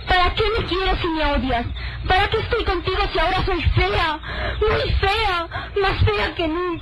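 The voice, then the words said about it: Shouting. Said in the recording (Spanish): “No grites, no grites.”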